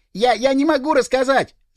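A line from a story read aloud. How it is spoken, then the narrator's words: Shrieking. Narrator (Russian): завизжал он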